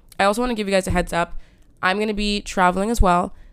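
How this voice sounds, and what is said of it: Hoarse, strained voice. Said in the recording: “I'm losing my voice, so I apologize for the way that I sound right now.”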